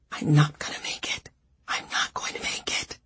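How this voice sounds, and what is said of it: Whispering. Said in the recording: “whispering”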